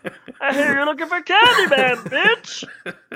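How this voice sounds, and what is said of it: Imitates another person's voice. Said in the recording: “that's obviously Pee Wee Herman”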